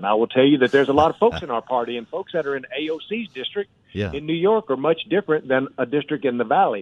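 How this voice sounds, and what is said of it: East Texas Southern American accent. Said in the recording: “East Texas, you know that from my accent.”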